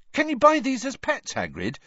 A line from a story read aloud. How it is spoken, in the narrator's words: he asked excitedly